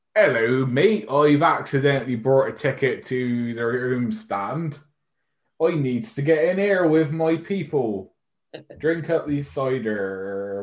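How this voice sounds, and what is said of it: Poor put-on West Country accent. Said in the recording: “with no Bristol accent ... can't even pretend to do a Brazilian accent. ... If you'd have tried that accent, I think you would have instantly been turned away.”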